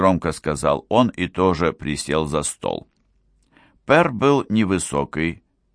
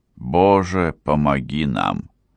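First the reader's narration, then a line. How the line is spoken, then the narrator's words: Breathless exhale. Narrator (Russian): выдохнул Энок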